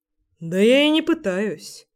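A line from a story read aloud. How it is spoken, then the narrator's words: Smirking snort. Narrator (Russian): хмыкнул он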